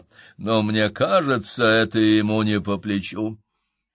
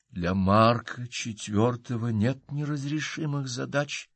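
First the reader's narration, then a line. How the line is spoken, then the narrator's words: Quiet and firm. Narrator (Russian): тихо и твердо произнесла она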